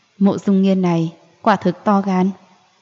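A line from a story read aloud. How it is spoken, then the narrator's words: Cold, icy. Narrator (Vietnamese): Nụ cười của Diệp Ly lạnh xuống, lạnh lùng nói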